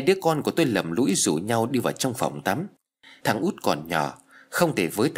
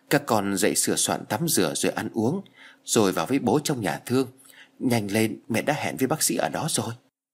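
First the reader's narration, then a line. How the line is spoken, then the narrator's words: Soft, tearful mother. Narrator (Vietnamese): Mẹ nó lệ ướt lưng tròng, trên đôi mắt mất ngủ, sưng vù và đỏ hoe vì thầm khóc đã mấy đêm nay, chỉ nhỏ nhẹ rồi nói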